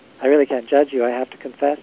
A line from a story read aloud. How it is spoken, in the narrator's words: Plum said